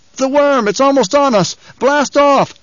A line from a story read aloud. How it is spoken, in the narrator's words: The last man came gasping into the rear, said